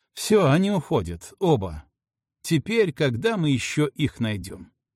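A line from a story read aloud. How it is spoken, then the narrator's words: Hysterical laughter. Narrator (Russian): Следователь уже истерически смеялся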